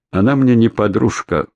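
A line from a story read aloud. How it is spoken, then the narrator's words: Dry. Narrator (Russian): сухо сказал Егор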